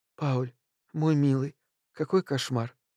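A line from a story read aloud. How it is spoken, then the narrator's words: Sobbing whisper. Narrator (Russian): Моника всхлипывала и шептала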